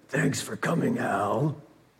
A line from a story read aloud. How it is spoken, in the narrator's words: through gritted teeth